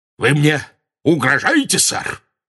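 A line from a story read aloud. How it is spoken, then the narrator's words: Loud barking. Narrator (Russian): рявкнул он так громко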